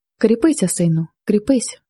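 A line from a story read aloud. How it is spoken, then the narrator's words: Old man's weak, distant voice. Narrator (Ukrainian): заговорив дід таким кволим, розбитим голосом, що, здавалося, голос цей діходив звідкись на двору, здалека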